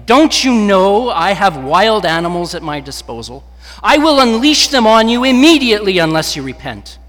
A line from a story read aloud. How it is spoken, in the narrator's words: The proconsul shouted at him